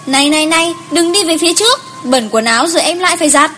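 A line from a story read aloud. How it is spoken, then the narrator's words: Shouting from behind. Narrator (Vietnamese): Cô đứng phía sau hét lên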